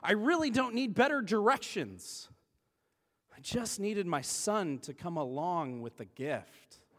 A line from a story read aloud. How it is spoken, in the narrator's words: she exclaimed